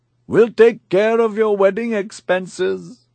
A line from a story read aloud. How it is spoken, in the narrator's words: I shouted